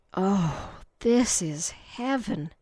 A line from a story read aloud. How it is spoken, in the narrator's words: Candy said breathlessly